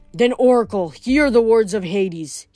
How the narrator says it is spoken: he growled

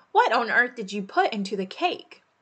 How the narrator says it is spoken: exclaimed

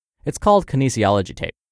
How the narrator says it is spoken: I replied quickly

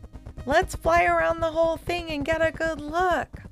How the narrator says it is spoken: hollered Fetcher, who also seemed a little concerned about it

